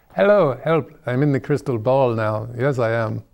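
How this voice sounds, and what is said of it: Put-on accent. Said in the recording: “I can drop the accent.”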